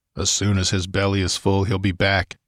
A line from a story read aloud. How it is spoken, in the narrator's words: muttered Conan